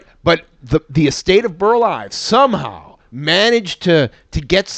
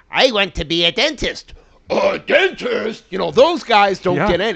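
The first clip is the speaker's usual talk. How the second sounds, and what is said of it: Imitates a cartoon character's voice. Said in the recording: “that's a good impression.”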